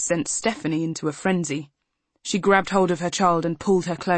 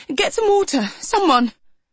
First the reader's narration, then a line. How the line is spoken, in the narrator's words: she cried